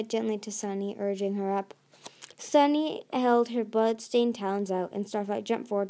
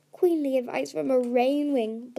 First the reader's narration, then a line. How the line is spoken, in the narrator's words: Blaze giggled, as if the pain in her neck was making her loopy